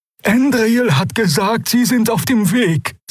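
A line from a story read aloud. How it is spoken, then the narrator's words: Trembling voice. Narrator (German): sagte Xia mit bebender Stimme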